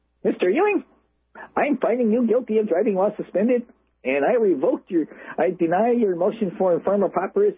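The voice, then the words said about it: Squeaky mocking imitation of a woman. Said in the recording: “I'm going to make fun of her voice a little bit here. She'll get this really squeaky voice.”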